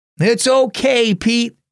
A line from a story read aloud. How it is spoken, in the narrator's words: shouted Dad